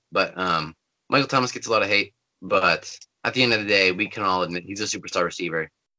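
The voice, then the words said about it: Slightly raspy voice. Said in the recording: “my voice is getting a little raspy.”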